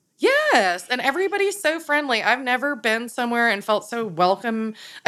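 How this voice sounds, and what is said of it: Regional American accent. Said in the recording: “Did they love your accent, too? ... they heard me talk and they were like, oh, you're not from here.”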